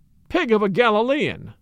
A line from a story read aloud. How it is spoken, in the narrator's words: he cried